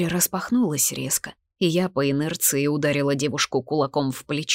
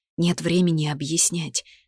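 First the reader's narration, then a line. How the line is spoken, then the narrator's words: Breathless exhale. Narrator (Russian): выдохнула я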